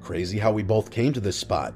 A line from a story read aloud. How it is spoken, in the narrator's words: said Mrs